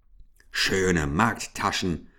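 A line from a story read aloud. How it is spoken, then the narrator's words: Growling. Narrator (German): knurrte Ambrosius Dauerspeck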